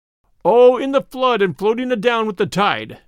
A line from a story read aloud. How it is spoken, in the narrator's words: cried Robin